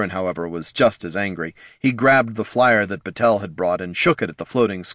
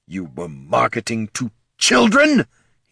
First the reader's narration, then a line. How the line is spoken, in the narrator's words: snarled